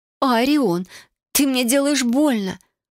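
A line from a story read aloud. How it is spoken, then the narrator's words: Whimpering. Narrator (Russian): захныкала незнакомка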